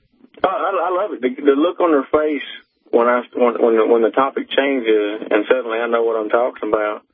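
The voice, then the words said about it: Speaks with a drawl. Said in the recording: “you can hear my drawl. ... I don't really talk all that well. I'm more educated than I sound”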